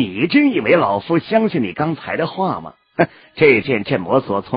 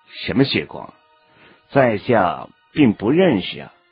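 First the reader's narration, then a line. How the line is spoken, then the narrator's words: Outwardly calm, flat answer. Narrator (Chinese): 韩立心中骇然呐、可是脸上镇定异常的淡淡的回答着老者的问题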